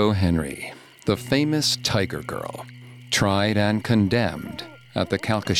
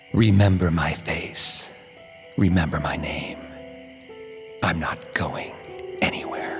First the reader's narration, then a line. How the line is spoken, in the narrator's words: She whispers